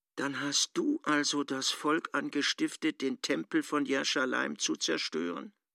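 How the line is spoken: Quiet question in Aramaic. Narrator (German): fragte dann leise auf Aramäisch

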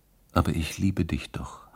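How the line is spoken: Whispered. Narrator (German): hatte geflüstert

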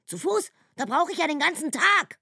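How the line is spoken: Raging very loudly. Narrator (German): tobt Brumilla noch lauter, so laut, dass die Raben aus den Bäumen flattern

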